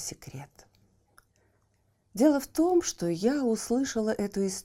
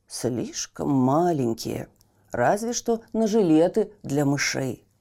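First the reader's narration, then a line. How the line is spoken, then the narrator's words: Plain. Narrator (Russian): сказал портной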